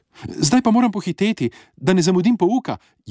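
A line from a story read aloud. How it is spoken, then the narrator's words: Exclaiming. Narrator (Slovenian): je vzkliknil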